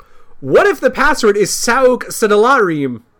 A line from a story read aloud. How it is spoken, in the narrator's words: Finally shouted Sonic at Amy